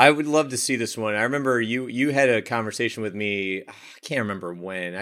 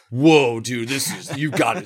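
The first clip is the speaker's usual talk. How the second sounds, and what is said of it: Imitates another person's voice, badly. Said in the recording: “that was a terrible Alex impression”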